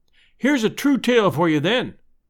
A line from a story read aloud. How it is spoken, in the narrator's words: I cried